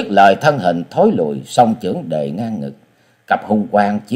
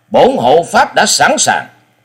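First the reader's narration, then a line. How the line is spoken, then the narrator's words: Loud shout. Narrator (Vietnamese): Sinh Tử Phán Hồ Bưu quát lên một tiếng lớn và nói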